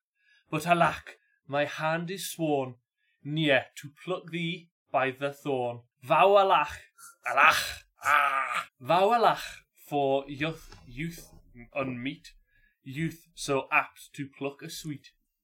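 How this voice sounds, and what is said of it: Put-on Geordie accent, polite twang. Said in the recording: “the Geordie accent really gave it quite a. a I'm going to call it a polite twang ... a polite a polite twang”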